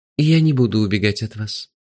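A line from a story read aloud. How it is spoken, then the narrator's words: Gentle interruption. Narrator (Russian): мягко перебил меня Гурик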